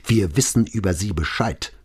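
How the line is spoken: Hissing. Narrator (German): zischte Brunetti

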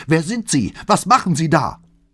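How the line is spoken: Angry scream. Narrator (German): Flavias andere Stimme, die nicht mehr sang, sondern wütend schrie

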